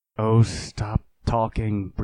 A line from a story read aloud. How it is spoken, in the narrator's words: breathed Ananda